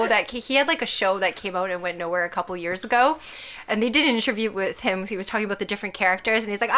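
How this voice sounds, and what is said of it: Usual voice. Nothing is said of it.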